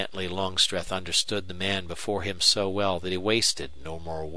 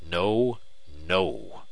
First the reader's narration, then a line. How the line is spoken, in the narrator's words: replied Longstreth, his voice still cold, low-pitched